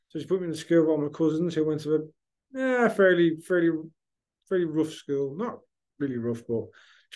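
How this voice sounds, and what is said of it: Strong blended accent. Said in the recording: “I have a strong accent ... You've got a blended accent.”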